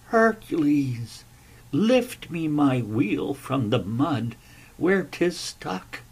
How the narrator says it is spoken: he laughed

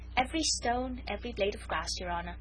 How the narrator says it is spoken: replied the Jew quietly

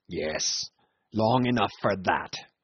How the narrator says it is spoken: snarled Cornelius

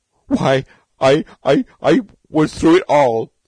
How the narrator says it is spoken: Beetle howled

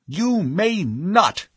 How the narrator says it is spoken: he cried

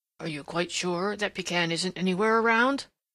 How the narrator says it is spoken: asked Prickly Porky, and his voice still shook

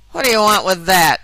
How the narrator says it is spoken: growled the carter

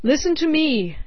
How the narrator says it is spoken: he cried

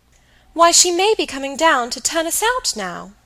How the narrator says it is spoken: Dolly, who had recovered, cried

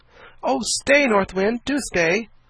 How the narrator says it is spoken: cried Diamond, dismayed to see the windmill get slower and slower

